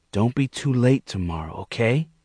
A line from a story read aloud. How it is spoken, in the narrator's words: she said quietly